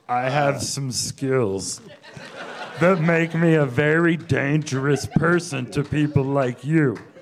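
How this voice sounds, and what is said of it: Imitates another person's voice. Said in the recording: “Neeson ... do a voice”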